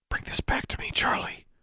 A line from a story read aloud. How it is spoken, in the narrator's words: she whispered